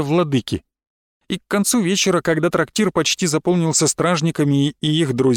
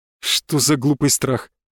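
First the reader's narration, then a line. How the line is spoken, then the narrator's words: Nervous laugh. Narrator (Russian): нервно хохотнул Эдван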